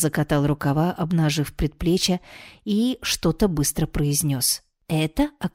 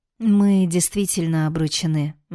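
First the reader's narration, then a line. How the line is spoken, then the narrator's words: Grim statement. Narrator (Russian): мрачно констатировала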